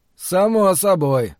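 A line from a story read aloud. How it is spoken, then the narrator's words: Gloomy reply. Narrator (Russian): мрачно ответил Ллойд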